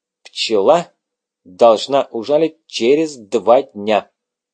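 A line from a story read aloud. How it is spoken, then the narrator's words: Clipped, precise. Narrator (Russian): отчеканил Доминик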